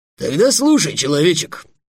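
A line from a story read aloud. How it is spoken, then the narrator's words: Dragon's barking roar. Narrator (Russian): рявкнул дракон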